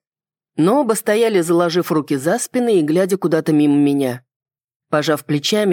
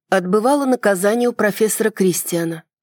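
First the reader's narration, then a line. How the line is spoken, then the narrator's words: Flat, empty voice. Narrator (Russian): ответил я таким же ровным и пустым голосом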